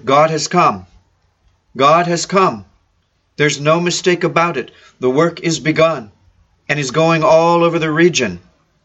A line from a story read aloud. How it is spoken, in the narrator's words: she became full of joy and exclaimed